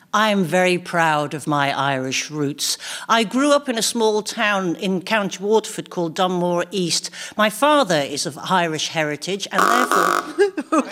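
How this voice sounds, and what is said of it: Strong Irish accent. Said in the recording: “Irish? Was that upper class Irish? ... it's quite a strong accent from where I come from”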